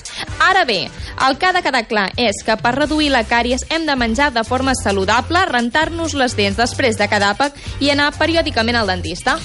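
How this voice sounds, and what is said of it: Catalan Girona accent. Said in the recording (Catalan): “M'encanta el teu accent de Girona”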